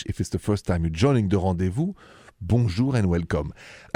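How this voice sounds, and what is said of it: French accent. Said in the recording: “My accent is French.”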